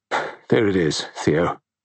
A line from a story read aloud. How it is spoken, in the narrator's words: he said brokenly